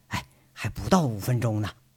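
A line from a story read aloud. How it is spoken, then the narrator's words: Soft, mischievous. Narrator (Chinese): 杨伟坏笑着轻声说了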